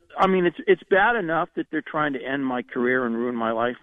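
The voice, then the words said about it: Choked up, emotional voice. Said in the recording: “getting a little bit choked up”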